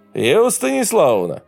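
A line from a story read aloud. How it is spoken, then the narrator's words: Shout. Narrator (Russian): Александр Николаевич крикнул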